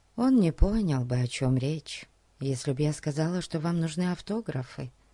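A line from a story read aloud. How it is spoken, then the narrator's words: Whisper in ear. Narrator (Russian): прошептала она на ухо Фати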